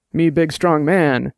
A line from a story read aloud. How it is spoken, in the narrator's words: Dex said, and grunted